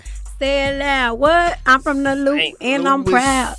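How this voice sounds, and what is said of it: Strong regional accent. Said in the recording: “I hear the strong accent”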